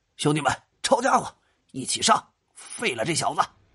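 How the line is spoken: Shout. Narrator (Chinese): 猴子却喊了声

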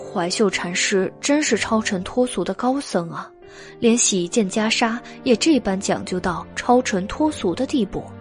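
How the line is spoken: Sighing. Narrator (Chinese): 袁耀叹道

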